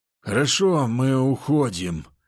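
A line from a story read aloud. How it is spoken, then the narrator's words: Displeased grumble. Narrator (Russian): недовольно проворчал Лысый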